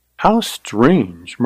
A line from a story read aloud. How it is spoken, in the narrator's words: murmured Carly